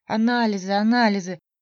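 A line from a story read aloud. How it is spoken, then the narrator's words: Groaned. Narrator (Russian): простонал Спасский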